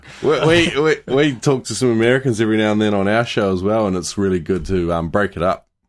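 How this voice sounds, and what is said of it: New Zealand or Australian accent. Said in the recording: “one of you guys is from New Zealand, the other one's from Australia ... It's always so pleasant to talk to someone with an accent. You guys sound awesome.”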